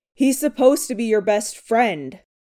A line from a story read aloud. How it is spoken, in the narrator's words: Peter roared, not wanting to hear Scott's excuses